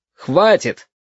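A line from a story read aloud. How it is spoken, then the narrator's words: Loud, from behind. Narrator (Russian): громко сказал за спиной красный шар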